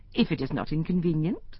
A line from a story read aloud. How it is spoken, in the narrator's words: said